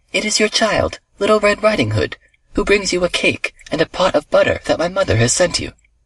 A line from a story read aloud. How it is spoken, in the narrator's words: she answered, cheerfully